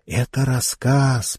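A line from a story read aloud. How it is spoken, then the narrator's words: Girl's whisper. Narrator (Russian): прошептала зеркальная девочка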